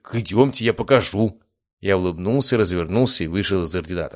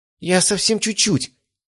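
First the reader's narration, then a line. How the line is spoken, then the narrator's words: Frightened babbling. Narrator (Russian): испуганно пролепетала она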